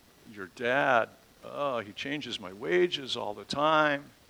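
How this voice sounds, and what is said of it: Put-on Jewish accent. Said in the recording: “I can just hear the Jewish accent.”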